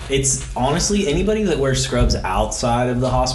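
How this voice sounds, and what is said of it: Usual voice. Nothing is said of it.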